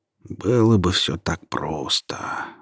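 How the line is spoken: Sighing. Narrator (Russian): вздохнул он

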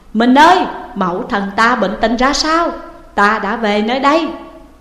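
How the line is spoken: Tearful, urgent loud question. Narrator (Vietnamese): Thúc Bảo nước mắt như muốn ứa, liền vội lớn tiếng hỏi

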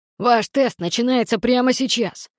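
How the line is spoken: Growled. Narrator (Russian): прорычал генерал Клеандр

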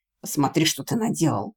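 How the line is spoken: Growling. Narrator (Russian): прорычал он

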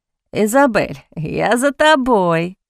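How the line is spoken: Chuckling. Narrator (Russian): хохотнул Харпер

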